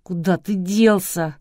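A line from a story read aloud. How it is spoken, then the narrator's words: Whining with renewed force. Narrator (Russian): с новой силой заскулил Глеб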